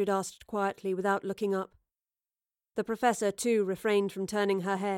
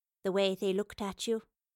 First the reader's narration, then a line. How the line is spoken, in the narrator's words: she replied